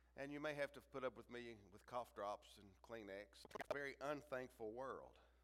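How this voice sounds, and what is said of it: Deep, congested voice. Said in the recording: “as you can tell by my voice, I have a cold. So you get my best James Earl Jones impersonation”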